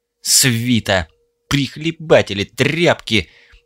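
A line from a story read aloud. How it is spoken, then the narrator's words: Disgusted, through gritted teeth. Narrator (Russian): Брезгливо цедя сквозь зубы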